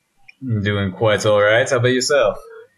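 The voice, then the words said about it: Exaggerated formal radio-announcer voice. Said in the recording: “phone voice. ... Fucking radio voice”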